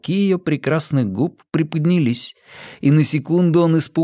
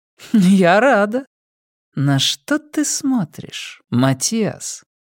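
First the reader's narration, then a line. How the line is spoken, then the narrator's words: Low purring voice. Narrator (Russian): Низкое мурлыканье ее голоса вибрировало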